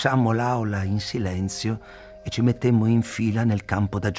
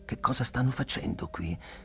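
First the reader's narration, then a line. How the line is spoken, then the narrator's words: Whispered. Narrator (Italian): bisbigliai a Tublu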